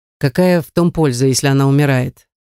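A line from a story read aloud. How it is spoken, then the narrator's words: Indifferent objection. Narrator (Russian): возразил Монтони равнодушным тоном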